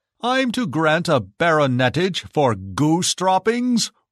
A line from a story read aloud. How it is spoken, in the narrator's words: roared the Emperor